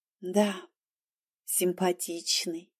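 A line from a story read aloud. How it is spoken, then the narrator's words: Quiet. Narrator (Russian): сказала я тихо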